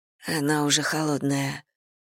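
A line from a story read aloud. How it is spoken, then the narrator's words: Whisper. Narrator (Russian): прошептала Мэгги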